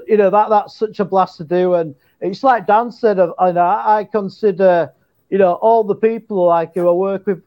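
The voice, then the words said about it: Yorkshire English accent. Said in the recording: “my Yorkshire English accent ... I sound like a Yorkshire pit miner”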